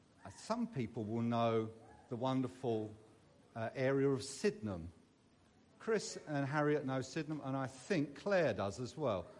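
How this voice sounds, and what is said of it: Southeast London English accent. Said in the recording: “As you can tell, I am not from Derbyshire by my accent. I was brought up in southeast London.”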